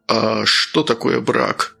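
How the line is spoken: Snorting. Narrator (Russian): Сергей хмыкнул

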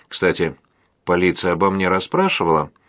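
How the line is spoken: Innocent-sounding young woman. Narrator (Russian): невинным тоном поинтересовалась молодая женщина

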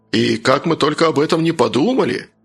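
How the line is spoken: Lifeless exclamation. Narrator (Russian): воскликнул мертвым голосом Джон

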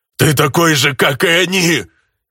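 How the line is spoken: Growl with teeth grinding. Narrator (Russian): Издав странный, возможно, зубовный скрежет, прорычала тень

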